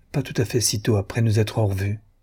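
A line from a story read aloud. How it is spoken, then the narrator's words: Faint voice. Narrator (French): dit-elle d'une voix faible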